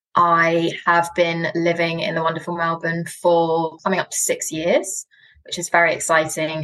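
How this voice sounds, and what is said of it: British accent. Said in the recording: “actually from the UK... my accent... I'm not from around these parts”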